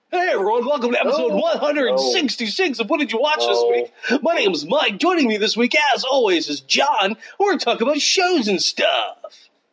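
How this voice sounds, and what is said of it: Announcer-style intro voice. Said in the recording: “I got my intro voice ... I can do a different intro voice”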